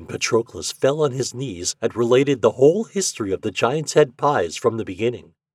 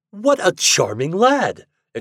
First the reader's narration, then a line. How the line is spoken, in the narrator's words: exclaimed the king